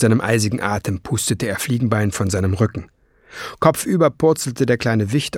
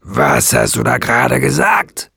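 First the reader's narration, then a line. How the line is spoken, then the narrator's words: Growl. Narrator (German): knurrte Nesselbrand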